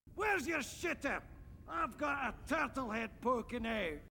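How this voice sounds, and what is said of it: Put-on Scottish accent. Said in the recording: “his now well-worn Scottish accent”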